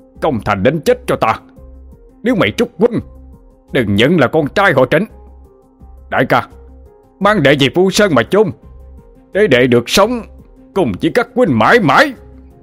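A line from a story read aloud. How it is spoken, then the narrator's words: Screaming. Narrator (Vietnamese): Trịnh Minh đã gào lên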